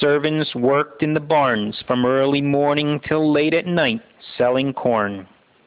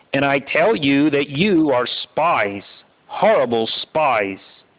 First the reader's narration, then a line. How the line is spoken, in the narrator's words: Joseph answers harshly